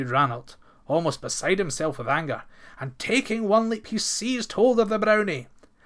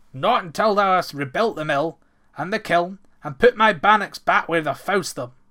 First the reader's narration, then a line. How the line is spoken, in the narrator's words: answered Ranald sternly